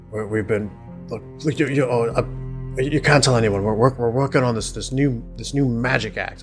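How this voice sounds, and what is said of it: Put-on dwarf character voice. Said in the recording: “in my dwarven voice”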